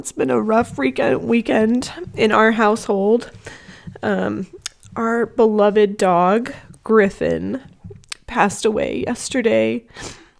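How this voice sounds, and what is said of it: Emotional, shaky voice. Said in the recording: “You can tell that I'm a bit emotional.”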